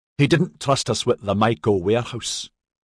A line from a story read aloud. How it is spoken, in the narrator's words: Maxon said harshly